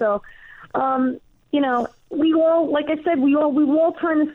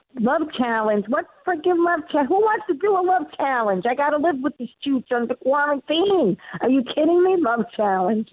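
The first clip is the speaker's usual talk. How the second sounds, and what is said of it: Thick Bronx New York accent. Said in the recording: “make this character Roe from the Bronx ... with the real accent, she's like, not that it's a stretch from, from my accent, my Queen's accent”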